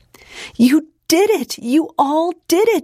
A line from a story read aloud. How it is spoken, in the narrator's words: she told them excitedly